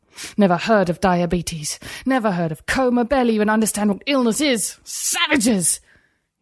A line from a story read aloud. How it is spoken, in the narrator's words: He spat the last word, angrier than he'd ever been